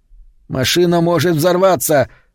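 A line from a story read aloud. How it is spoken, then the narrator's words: Sudden shout. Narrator (Russian): закричал вдруг Вес на Соланж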